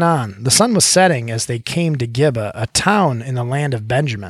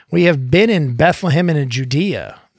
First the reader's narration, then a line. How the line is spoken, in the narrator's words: the man replied